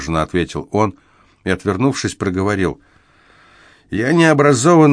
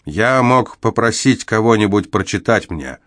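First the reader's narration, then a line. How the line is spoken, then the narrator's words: Irritated reply. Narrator (Russian): раздраженно ответил он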